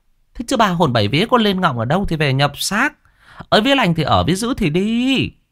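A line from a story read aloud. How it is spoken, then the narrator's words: Woman wailing. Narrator (Vietnamese): Một bà khác gào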